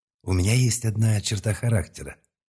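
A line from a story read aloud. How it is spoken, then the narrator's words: Calm, confiding voice. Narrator (Russian): доверительным спокойным голосом стал говорить я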